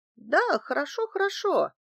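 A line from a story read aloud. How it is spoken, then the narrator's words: Exclamation. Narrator (Russian): воскликнула Валерия Евгеньевна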